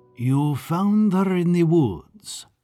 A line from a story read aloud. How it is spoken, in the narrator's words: said Babik, in his slow and chalky voice